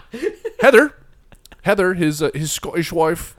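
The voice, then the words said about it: Put-on Irish accent. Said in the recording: “Pretty sure I just did an Irish accent there.”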